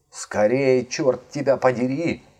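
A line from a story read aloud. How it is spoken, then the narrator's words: Yelling through a door. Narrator (Russian): вопит через дверь компаньон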